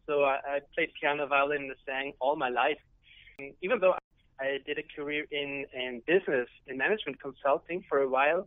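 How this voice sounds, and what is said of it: Austrian accent. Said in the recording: “you do have a fabulous accent ... you are originally from Austria”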